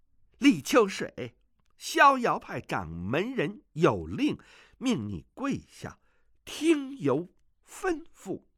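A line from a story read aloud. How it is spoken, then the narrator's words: Loud. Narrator (Chinese): 童老大声地说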